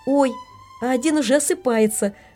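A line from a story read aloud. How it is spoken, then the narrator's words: Sudden child's shout. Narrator (Russian): вдруг крикнула маленькая Олечка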